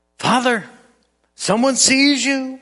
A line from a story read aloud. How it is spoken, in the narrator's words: child cried again